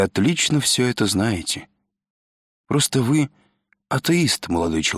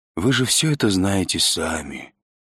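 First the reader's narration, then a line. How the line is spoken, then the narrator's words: Gentle old man. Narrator (Russian): ласково сказал старик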